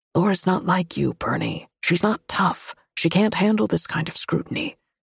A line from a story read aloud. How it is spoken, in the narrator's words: heard him whispering